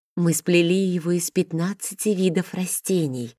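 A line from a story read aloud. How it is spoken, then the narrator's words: Smiling. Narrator (Russian): с улыбкой сказала Алина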